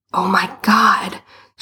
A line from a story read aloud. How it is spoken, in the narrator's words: she hissed